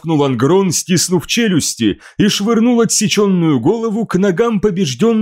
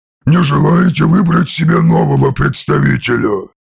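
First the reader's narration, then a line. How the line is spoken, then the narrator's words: Hissed. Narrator (Russian): Прошипел примарх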